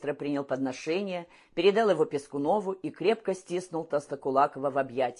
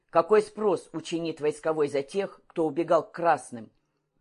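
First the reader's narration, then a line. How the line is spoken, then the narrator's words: Barked shout. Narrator (Russian): Калмыков гаркнул перед поселковыми шеренгами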